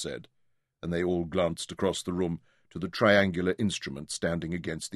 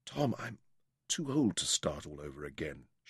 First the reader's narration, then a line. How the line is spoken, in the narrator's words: whispered